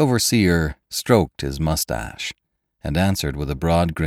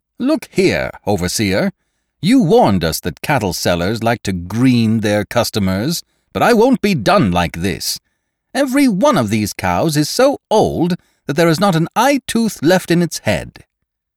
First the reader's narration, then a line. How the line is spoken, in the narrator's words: he called out